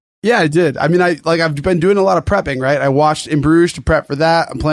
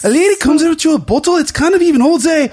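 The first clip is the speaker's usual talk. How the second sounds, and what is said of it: Badly put-on accent. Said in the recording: “Terrible accent”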